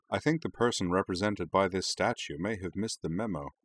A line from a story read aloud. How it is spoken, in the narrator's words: said Rory dryly